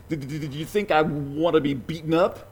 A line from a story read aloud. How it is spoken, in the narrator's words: He had a stutter